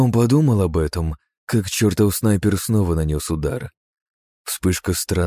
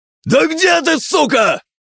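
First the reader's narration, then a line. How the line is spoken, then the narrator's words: Shouting, losing patience. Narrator (Russian): Не выдержав, закричал Гин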